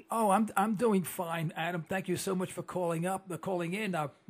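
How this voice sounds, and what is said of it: Strained, failing voice. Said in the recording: “My voice is giving way.”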